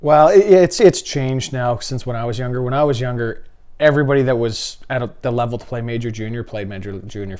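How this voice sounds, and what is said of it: Canadian accent. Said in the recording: “the Canadian accent”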